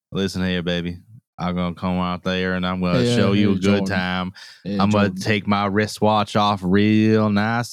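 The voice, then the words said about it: Put-on Southern accent. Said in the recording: “talk to me in a Southern accent”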